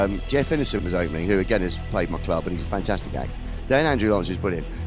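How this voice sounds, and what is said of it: Usual voice. Nothing is said of it.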